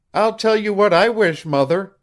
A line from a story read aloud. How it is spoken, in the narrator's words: cried he